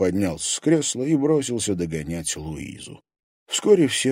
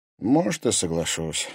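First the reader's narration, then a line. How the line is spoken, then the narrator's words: Tired. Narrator (Russian): устало произнес Тимофей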